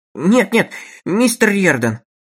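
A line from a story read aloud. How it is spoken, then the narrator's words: Exclamation. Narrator (Russian): воскликнул Лоусон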